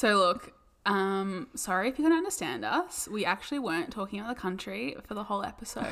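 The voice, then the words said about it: Australian accent. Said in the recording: “someone who couldn't understand our accents ... It sounds the same in an Australian accent.”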